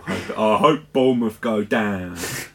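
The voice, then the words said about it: Put-on accent. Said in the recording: “Another accurate accent there.”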